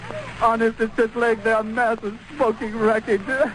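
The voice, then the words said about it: Distraught, breathless, choked-up voice. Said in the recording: “I can hardly breathe ... I've lost my voice ... Can you get through that without tears coming to your eyes? ... It's just so raw and so real”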